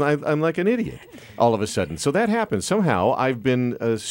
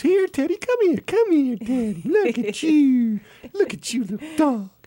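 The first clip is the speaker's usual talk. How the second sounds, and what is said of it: High-pitched baby talk voice. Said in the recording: “I have a deep voice. I started talking in a little baby voice.”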